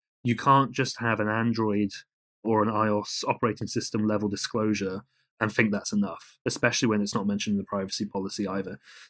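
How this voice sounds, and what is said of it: British accent. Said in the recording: “as you can probably tell from my accent, I'm British and a European”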